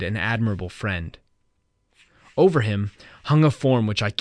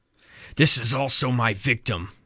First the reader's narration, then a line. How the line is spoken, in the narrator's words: exclaimed